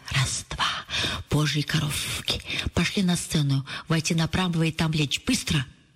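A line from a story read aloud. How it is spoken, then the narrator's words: Hurried whisper. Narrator (Russian): торопливый шепот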